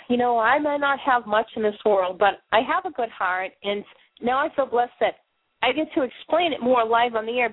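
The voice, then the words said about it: Boston accent. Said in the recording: “speaking funny with my Boston accent ... talking kind of funny”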